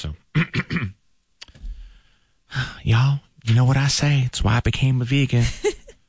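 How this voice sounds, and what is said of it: Imitates another person's voice. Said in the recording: “You said you wanted me to do this in my Dallas voice.”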